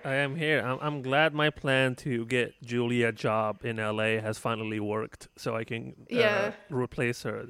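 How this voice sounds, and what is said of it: Speaks in a put-on accent. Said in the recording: “it completely changed her voice. You know, it gave her an accent. It's completely different.”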